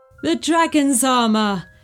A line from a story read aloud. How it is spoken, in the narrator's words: laughed Morian with delight